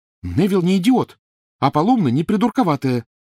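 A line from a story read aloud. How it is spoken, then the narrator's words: Exclamation. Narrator (Russian): воскликнула Гермиона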